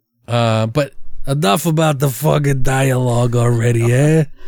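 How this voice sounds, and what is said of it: Put-on accent. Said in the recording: “Oh, enough with the accent, eh?”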